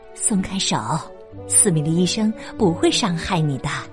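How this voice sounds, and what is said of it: Soft, quiet coaxing voice. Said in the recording (Chinese): “布莱斯老师小声的哄着梅根说”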